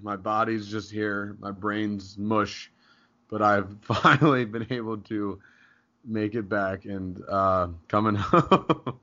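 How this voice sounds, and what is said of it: Weak, strained recovering voice. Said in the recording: “the voice is here. ... My voice is back, barely.”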